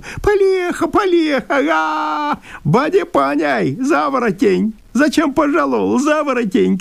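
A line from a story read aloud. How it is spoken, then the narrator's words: Shouting through laughter. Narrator (Russian): кричал он сквозь смех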